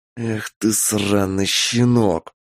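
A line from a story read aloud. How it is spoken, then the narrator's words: Hissed. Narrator (Russian): Прошипел он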